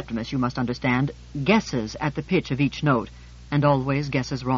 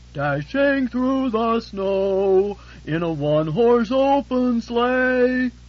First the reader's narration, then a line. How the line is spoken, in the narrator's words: to my ears there came the distant bellow of